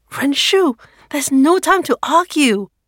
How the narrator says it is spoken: Meilin shouts

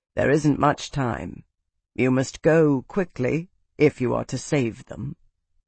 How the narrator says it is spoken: Fidelius's voice said gently

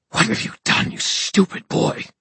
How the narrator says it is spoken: He hissed

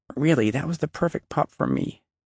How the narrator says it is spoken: Abby began to cry softly, saying

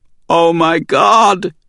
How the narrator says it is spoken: Savannah shouted

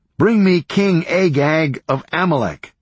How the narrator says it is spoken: Samuel shouted

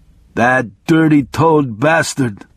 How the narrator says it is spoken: he groaned

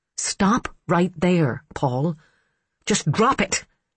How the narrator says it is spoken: she said sharply

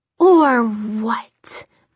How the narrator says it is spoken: Mirik snarled

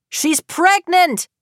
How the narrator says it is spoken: Phil shouts

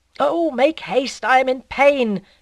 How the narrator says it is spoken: cried Bovary, angrily

